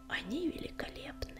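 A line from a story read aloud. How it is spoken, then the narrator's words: Whispered. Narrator (Russian): прошептал Огнегрив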